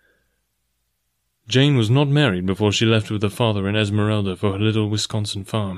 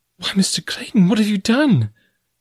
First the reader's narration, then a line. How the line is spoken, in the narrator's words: cried Jane Porter, her heart sinking within her as she realized the probable size of the expenditure that had been made